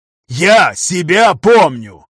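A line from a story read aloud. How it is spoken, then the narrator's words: Barked. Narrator (Russian): рявкнул, также вставая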